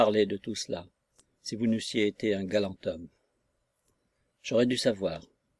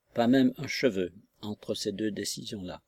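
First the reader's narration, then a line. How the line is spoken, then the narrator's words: Murmur. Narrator (French): murmura-t-il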